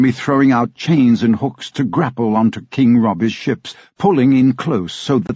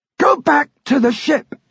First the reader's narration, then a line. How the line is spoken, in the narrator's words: Michael shouted